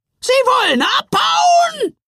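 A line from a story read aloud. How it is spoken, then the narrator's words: Loud shout. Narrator (German): brüllte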